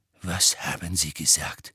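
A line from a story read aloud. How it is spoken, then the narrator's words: Quiet question. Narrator (German): fragte Snape leise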